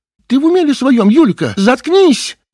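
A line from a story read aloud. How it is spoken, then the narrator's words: Sudden shout. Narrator (Russian): Вдруг крикнула Юлия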